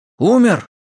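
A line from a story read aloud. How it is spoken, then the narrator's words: Exclaimed. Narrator (Russian): воскликнул Хельвар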